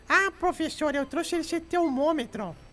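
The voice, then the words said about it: Imitates a child's voice. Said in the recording (Portuguese): “Tô imitando criança, tá?”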